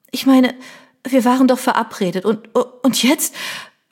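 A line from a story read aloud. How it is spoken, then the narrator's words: Tearful stammering. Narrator (German): stotterte Tränen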